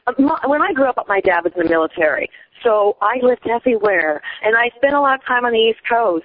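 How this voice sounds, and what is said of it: Fast-talking mixed American accent. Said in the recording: “So I speak sounds fast like an East Coast person ... I tend to have like kind of a, I guess, a mutt type of accent.”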